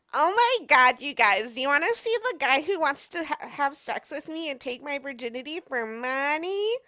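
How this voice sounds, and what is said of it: Drunk valley-girl character voice. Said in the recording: “I did my drunk white girl voice”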